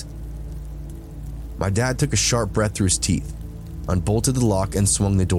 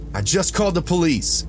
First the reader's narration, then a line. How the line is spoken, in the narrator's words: shouted over the voices